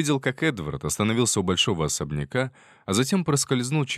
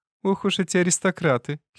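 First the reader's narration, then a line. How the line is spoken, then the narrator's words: Young woman's giggle. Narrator (Russian): хихикнула молоденькая служанка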